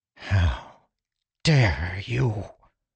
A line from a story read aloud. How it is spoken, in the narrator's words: Lirin whispered, his voice hoarse